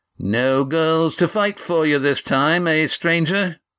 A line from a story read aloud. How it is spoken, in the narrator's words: Carl taunted